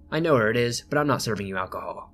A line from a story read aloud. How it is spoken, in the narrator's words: calmly tell